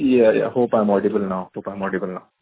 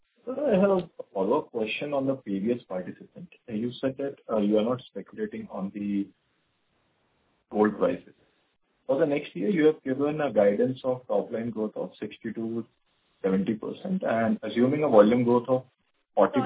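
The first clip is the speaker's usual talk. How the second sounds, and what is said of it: Very quiet, low-volume speech. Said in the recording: “Can you speak a little louder? Your voice is very low”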